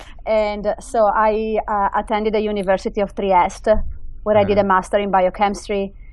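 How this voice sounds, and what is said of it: Italian accent. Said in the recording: “you can tell from my accent that I did not grow up here. ... I grew up in Italy.”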